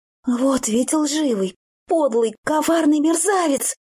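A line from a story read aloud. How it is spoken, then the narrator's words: Angry exclamation. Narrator (Russian): гневно воскликнула я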